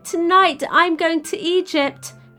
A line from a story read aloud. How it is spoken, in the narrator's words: he cried, but nobody heard